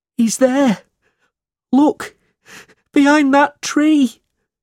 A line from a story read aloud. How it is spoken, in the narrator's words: cried Smike